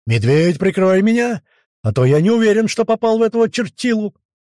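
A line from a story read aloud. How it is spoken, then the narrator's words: Shout. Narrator (Russian): крикнул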